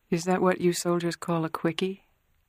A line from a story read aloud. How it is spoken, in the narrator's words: Kay murmured